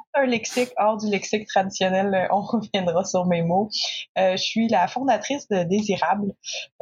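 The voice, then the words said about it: Non-French francophone accent. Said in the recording (French): “vous allez voir à mon accent que clairement, je ne suis pas d'origine française.”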